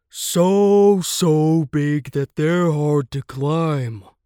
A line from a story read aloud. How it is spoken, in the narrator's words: sighed the elephant